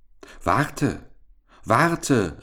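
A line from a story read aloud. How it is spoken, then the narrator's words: Frog calling out. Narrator (German): rief der Frosch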